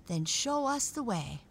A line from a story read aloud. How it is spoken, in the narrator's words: Raggedy Ann cried